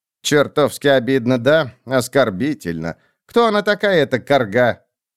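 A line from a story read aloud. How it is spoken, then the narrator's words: Snorting. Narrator (Russian): Пулли фыркнула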